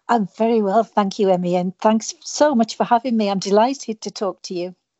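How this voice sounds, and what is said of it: British accent. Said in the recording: “all the way from the UK ... I love your accent. ... It's just beautiful.”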